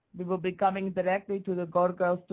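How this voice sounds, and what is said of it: Put-on Russian accent. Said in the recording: “one of my producers does an awesome Russian accent ... can you do a Russian accent and say that you like Gigi and you're going to invade the studio”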